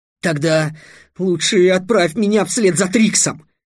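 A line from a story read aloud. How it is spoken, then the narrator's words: Sudden exclamation. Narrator (Russian): внезапно воскликнул Иин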